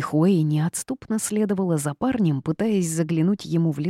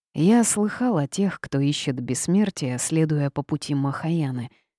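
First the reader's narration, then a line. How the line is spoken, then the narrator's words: Gruff grumble. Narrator (Russian): буркнул Афу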